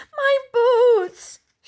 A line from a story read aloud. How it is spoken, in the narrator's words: she wailed